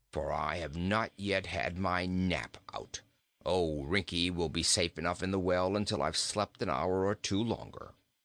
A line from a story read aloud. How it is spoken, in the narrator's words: growled the goat